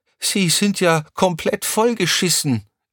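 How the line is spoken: Calling out. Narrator (German): rief Crescentia Rausch

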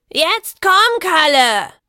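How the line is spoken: Shouting after running. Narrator (German): schrie die Meisterin, als sie von ihrem Lauf zurückkam

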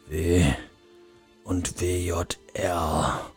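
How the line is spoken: Murmured. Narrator (German): murmelte er

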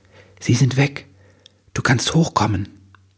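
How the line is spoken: Whispered. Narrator (German): Sie flüsterte

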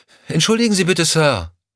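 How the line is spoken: Called after someone. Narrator (German): rief Lorna ihm hinterher

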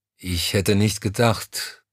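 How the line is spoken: Hesitant. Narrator (German): fuhr er zögernd fort

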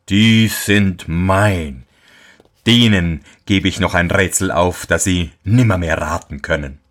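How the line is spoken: Devil's mocking voice. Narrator (German): sprach der Teufel höhnisch

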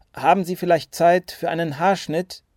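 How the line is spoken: Called across the yard. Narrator (German): rief ihr Peter Paul über den Hof zu

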